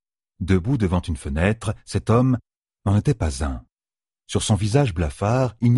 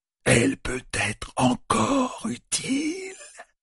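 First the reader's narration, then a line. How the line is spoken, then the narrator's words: Grating creature voice. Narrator (French): fit le Myrdral d'une voix grinçante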